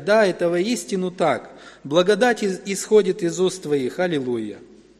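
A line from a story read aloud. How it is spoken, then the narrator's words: Loud crowd exclaiming. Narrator (Russian): Все, кто были в синагоге, стали громко восклицать и провозглашать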